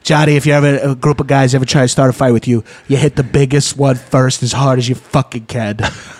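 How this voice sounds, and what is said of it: Donald Trump impression. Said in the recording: “do a Donald Trump impression, is because that's what my dad actually sounded like”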